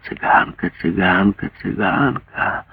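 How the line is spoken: Excited mocking singsong mutter. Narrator (Russian): Затворница возбужденно и насмешливо нараспев забормотала

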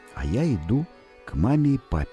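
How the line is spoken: Plain. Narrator (Russian): сказал

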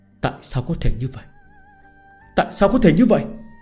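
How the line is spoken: Stunned muttering to himself. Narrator (Vietnamese): Võ Thiên Nam chỉ có thể trợn mắt hốc mồm, tự lẩm bẩm

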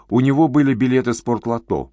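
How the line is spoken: Sudden joyful. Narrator (Russian): вдруг радостно проговорил Большаков

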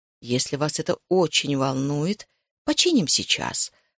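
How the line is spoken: Gentle, indulgent. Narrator (Russian): сказал он бабушке мягко, уступая ей так, будто она была малое дитё

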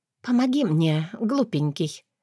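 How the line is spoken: Hoarse whisper. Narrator (Russian): шепнула хрипло

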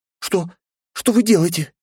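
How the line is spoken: Frightened babbling. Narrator (Russian): испуганно пролепетала она

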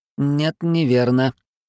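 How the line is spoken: Unusually metallic tone. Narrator (Russian): ответил непривычно металлическим тоном Ларс

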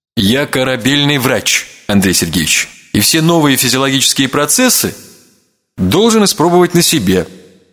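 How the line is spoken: Self-important tone. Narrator (Russian): важным тоном проговорил

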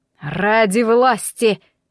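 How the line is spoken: Hissed through teeth. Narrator (Russian): процедил сквозь зубы волос

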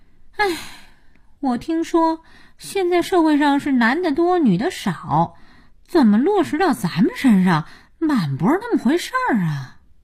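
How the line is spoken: Sighing. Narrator (Chinese): 佳音叹气

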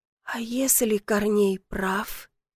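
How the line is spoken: Whisper. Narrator (Russian): прошептала

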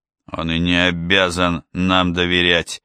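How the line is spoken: Through gritted teeth. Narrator (Russian): процедил Галло

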